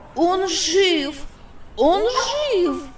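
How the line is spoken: Exclaiming. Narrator (Russian): воскликнул Палко

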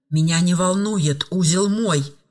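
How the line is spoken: Hissing hardened convict. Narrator (Russian): зашипела закоренелая преступница, у которой это был далеко не первый срок и не первый этап

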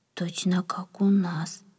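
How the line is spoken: Whisper. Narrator (Russian): прошептал кто-то

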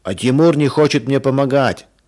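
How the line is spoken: Child shouting. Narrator (Russian): закричал Женя

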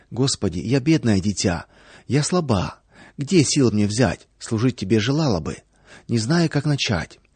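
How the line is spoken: Soft whisper. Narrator (Russian): Наташа тихонечко шептала

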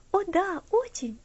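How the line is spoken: Cheerful reply. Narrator (Russian): весело ответила Элси

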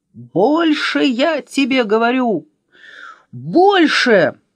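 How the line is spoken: Yelling. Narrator (Russian): другой вопил

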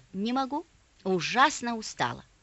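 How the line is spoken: Calm reply. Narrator (Russian): мама спокойно ответила

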